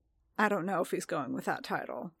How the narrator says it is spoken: Din muttered

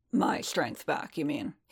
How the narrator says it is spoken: he muttered

